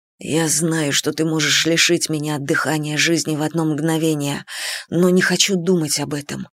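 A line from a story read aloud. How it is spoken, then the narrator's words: Whisper. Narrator (Russian): прошептал он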